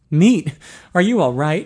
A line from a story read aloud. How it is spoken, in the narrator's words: asked anxiously